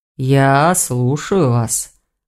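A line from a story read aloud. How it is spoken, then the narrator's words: Muffled, hollow. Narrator (Russian): глухо сказал Гварен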